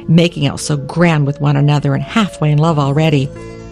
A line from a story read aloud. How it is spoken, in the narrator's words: the cook snorted